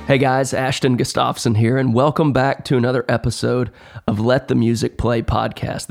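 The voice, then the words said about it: Slightly hoarse voice. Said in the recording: “Pardon my voice today. I'm a little bit hoarse, but it sounds worse than it really is.”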